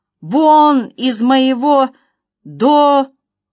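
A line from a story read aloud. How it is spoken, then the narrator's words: Wheezing rasp. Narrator (Russian): Николь прохрипела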